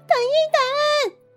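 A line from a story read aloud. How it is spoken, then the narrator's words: Shout. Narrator (Chinese): 温妮喊道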